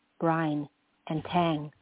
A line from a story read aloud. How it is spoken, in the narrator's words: murmured back